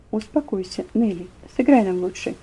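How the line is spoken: Low, firm voice. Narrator (Russian): вполголоса, но внушительно сказал

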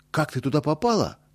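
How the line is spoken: Alarmed exclamation. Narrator (Russian): тревожно воскликнул Боря

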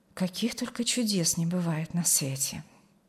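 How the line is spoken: Quiet, overcome with emotion. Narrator (Russian): Не сдержавшись под натиском эмоций, негромко промолвила Алевтина

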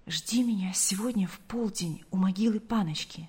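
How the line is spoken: Quick whisper. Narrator (Russian): Павел успел прошептать Гале

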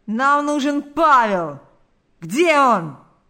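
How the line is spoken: Shouting. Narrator (Russian): закричали они

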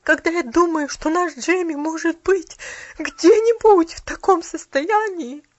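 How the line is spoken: Broken sobbing. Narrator (Russian): Послышались прерывистые всхлипывания

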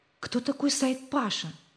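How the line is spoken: Whispered question. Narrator (Russian): спросил Рик товарища шепотом

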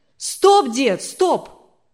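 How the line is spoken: Shouted. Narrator (Russian): прокричал Анатолий

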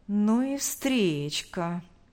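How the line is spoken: Drawling. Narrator (Russian): протянул Павел, обращаясь к Роману

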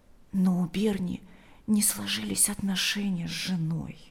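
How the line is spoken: Quiet. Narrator (Russian): добавила она тихо

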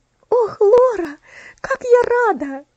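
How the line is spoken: Joyful exclamation. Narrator (Russian): радостно воскликнула Элси

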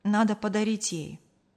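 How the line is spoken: Sighing. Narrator (Russian): вздохнул Артур

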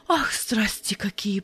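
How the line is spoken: Whispering. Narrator (Russian): прошептала Ярина

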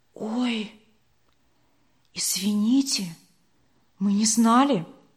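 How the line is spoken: Whispered reply. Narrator (Russian): шепотом ответила Вера

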